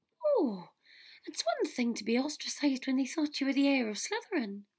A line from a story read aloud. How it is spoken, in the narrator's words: Luna said happily